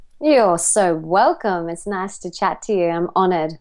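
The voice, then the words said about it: Australian accent. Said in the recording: “I'm picking up on the accent here. you're an Australian girl, aren't you? You're an Aussie.”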